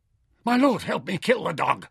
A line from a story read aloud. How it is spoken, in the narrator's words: Asmore panted